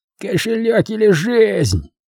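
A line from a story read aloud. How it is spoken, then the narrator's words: Hoarse voice from darkness. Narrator (Russian): прохрипели из темноты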